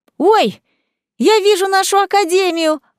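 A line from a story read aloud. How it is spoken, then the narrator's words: Excited exclamation. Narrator (Russian): воскликнула Марселла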